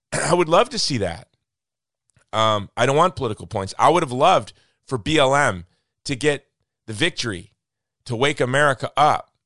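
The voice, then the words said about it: Hoarse, fading voice with cough. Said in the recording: “with the cough as I'm losing my voice.”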